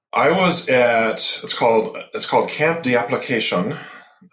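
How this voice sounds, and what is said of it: Put-on French accent on a name. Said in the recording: “That's my best French accent, or Creole as the case may be.”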